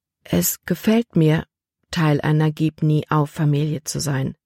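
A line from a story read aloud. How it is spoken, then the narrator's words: Gentle. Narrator (German): sagte sanft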